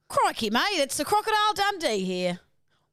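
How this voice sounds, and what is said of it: Put-on Australian accent. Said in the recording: “Do your best Australian accent.”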